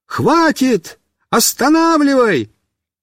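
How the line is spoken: Shouting. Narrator (Russian): крикнул

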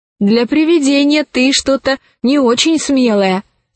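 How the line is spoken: Plain. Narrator (Russian): сказала Алиса

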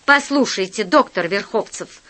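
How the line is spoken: Angry. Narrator (Russian): сказал я сердито

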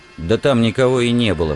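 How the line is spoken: Mumble. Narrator (Russian): пробурчал он

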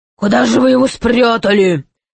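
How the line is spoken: Grumbling. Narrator (Russian): ворчал пират

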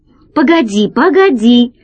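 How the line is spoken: Exclaimed. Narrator (Russian): воскликнул Гайдо

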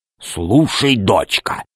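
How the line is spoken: Loud whisper. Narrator (Russian): сказал он громким шепотом

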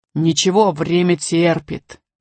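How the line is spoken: Peaceable growl. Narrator (Russian): миролюбиво прорычал Громозека

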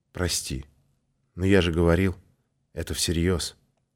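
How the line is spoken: Quiet. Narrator (Russian): Валерка негромко произнес

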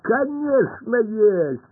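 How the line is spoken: Laughing. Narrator (Russian): рассмеялся Пашка

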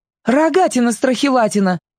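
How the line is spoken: Loud bark. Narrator (Russian): гаркнула Таня

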